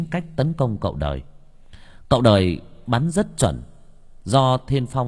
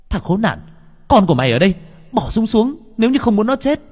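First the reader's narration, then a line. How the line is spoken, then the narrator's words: Shouting. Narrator (Vietnamese): Hồng Anh vừa nhìn thấy Thiên Phong do dự thì hét lên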